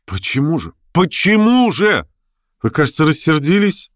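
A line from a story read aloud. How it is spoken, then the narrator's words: Upset, pleading voice. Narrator (Russian): огорченным и умоляющим голосом спрашивала Лиза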